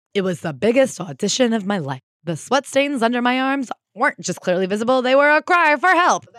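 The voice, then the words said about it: Good impression of another voice. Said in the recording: “That's a good impression.”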